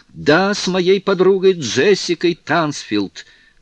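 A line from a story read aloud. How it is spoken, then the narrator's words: Exclamation. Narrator (Russian): воскликнула Кларинда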